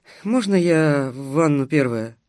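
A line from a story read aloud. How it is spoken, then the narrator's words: Sleepy question. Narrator (Russian): сонно спросила Дарья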